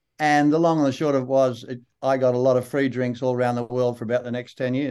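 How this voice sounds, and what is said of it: Strong, broad Australian accent. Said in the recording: “you got a really broad Australian accent. Like, it's really strong.”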